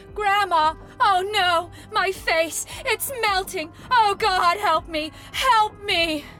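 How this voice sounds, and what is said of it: Panicked screaming. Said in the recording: “She is sweating and screaming, calling out”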